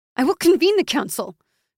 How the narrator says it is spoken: Krissa said desperately

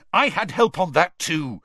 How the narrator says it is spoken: Harry snapped

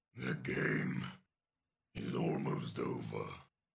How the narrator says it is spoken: Dare growls

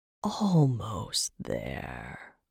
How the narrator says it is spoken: the wizard hissed

